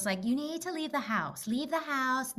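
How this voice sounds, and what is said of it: Sweet Good Witch-like motherly voice. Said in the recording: “when I impersonate my mom ... You made her sound like the Good Witch.”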